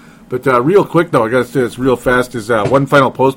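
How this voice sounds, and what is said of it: Usual voice. Nothing is said of it.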